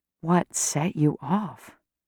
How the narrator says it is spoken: I whisper

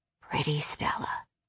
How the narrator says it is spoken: he whispered

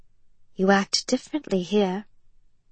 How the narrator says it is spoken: she said quietly, knowing it was a risk, but wanting to say it anyway

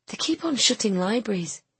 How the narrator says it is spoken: Nina said sadly

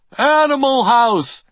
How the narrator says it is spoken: One guy kept yelling

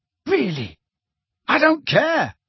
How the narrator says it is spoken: Harry yelled at them

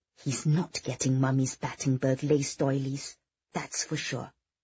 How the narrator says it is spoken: Victoria muttered under her breath

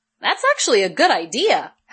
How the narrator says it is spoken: Helen said brightly

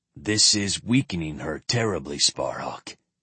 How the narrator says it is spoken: Kurik continued gravely

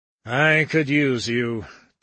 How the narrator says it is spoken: Dickinson sighed

